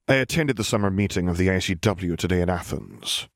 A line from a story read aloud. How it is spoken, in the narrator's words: Albus sighed tiredly